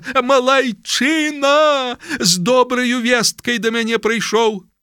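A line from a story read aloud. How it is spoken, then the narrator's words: Joyful shout. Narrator (Belarusian): закрычаў радасна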